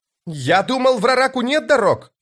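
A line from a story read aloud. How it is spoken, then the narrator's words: Shouting over wind. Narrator (Russian): прокричал он, стараясь перекрыть пронзительный вой ветра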